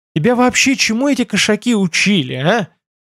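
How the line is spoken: Displeased sigh. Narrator (Russian): Недовольно вздохнул Байда

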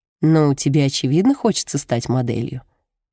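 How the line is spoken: Plain. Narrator (Russian): говорит Джулия

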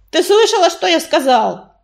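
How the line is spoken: Creature barking. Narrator (Russian): рявкнул паутинник

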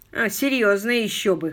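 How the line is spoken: Snort. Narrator (Russian): хмыкнул Том

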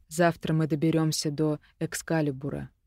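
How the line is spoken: Quiet. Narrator (Russian): тихо сказал он

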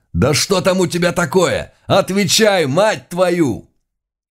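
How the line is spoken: Loud angry swearing. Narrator (Russian): Один из стрелков громко выматерился

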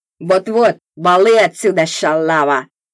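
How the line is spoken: Rude parting words. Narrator (Russian): грубо напутствовал меня на прощание тот

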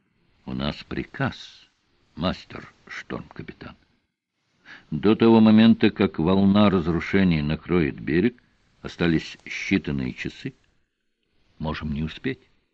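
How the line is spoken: Quiet reply. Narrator (Russian): Тихо он ответил

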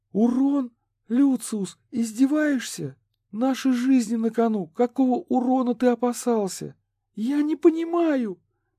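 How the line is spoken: Exclaiming. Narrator (Russian): воскликнула Катрин

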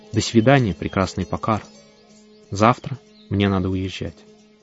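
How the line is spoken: Quiet. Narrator (Russian): я тихо сказал

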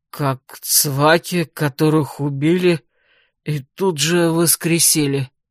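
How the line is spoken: Hoarse reply. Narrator (Russian): хрипло ответил Лерекаин

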